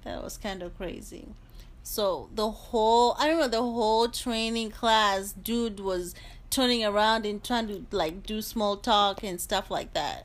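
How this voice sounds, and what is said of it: African accent. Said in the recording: “it was African. It was some kind of African accent ... It was thicker back then than it is now.”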